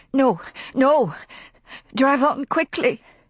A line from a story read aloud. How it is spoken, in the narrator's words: she sobbed